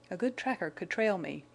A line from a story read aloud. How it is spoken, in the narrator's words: he muttered